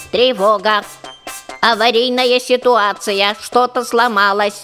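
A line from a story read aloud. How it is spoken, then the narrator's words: Mechanical voice. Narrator (Russian): Механическим голосом сказала она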